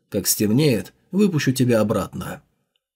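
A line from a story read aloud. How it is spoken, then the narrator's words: Low whisper. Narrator (Russian): Джао Юньлань низким голосом шепнул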